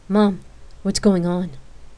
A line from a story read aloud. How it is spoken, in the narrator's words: She asked nervously